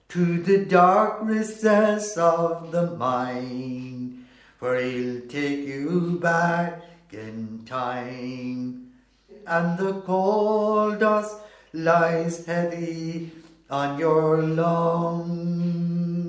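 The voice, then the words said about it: Sung imitation of a female singer. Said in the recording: “doing an imitation of him? ... Doing an imitation of her is right.”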